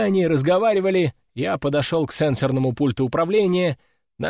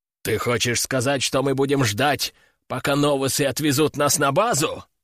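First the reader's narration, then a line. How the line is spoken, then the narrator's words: Growling berserker. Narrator (Russian): зарычал берсерк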